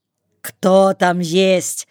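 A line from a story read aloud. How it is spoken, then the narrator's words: Angry shout. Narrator (Russian): сердито кричит Логок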